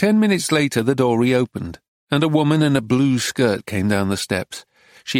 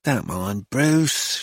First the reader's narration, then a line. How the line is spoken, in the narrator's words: sighed